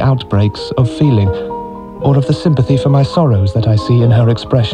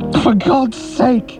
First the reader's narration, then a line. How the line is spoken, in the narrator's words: I said fiercely